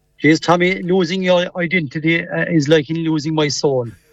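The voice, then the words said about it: Strong Cork Irish accent. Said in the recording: “You never lost the Cork accent ... you'd think you'd get some semblance of a Mayo accent, but not a splice of it.”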